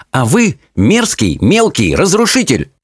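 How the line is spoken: Exclaimed. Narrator (Russian): воскликнула она

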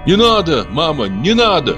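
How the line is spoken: Sudden shout. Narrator (Russian): крикнул вдруг Акберген

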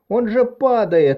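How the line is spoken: Breathless gasp then shout. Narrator (Russian): выдохнула закричала

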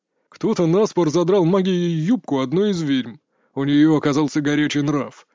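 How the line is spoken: Deep bass voice. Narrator (Russian): пробасил Самсон

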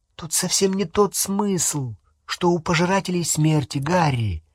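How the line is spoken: Soft, gentle. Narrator (Russian): мягко сказала Гермиона

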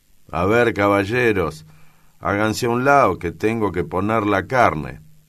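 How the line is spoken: Old woman's grumpy voice. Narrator (Spanish): La vieja Laura dice con voz malhumorada

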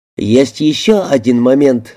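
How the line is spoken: Plain. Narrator (Russian): сказал он

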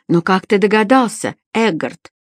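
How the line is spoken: Exclaimed. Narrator (Russian): воскликнул Гарик

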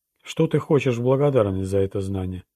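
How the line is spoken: Plain. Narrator (Russian): спросила Лу

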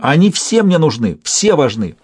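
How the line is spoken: Angry shout. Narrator (Russian): Я сердито крикнула

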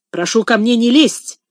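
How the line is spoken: Fierce snapping retort. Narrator (Russian): свирепо огрызнулся Мулат

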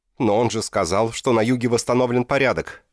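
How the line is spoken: Shouted out. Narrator (Russian): выкрикнул Кончай

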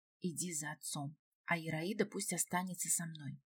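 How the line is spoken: Quiet. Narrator (Russian): она тихо сказала

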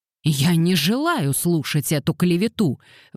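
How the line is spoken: Furious exclamation. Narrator (Russian): в ярости воскликнул Уэринг

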